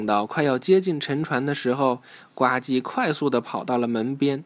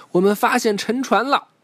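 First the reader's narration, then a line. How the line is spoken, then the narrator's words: Sudden shout. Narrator (Chinese): 巴克队长突然喊道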